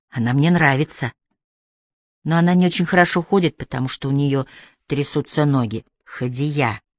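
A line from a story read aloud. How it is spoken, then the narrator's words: Quiet, father. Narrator (Russian): тихо сказал отец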